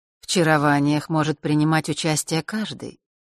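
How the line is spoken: Even voice. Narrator (Russian): ровным голосом произнес белый эфир

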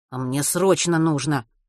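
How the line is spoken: Grumbling. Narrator (Russian): буркнул Матвей

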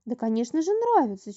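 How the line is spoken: Sincere girl's exclamation. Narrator (Russian): чистосердечно воскликнула девочка

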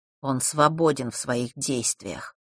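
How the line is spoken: Muffled, hollow voice. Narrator (Russian): глухо сказал Ник

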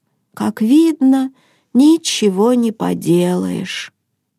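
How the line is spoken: Sad sighing mutter. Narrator (Russian): Хенрик огорченно вздохнул и пробормотал

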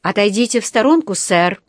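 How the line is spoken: Stern command. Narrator (Russian): строго приказал ему один из полицейских

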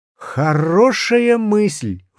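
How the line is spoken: Exclaimed. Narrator (Russian): воскликнул я

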